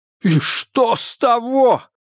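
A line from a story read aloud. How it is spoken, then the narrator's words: Shouted. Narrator (Russian): выкрикнул Адамс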